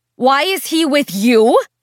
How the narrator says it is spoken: Priscilla asked, her voice rising

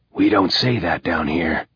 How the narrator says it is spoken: whispered Constant

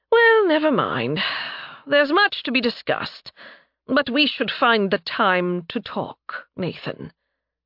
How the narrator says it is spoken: Sighing, he continued

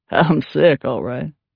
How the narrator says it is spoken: Braxton said with a laugh

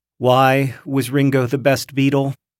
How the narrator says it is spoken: you'll sigh again before saying

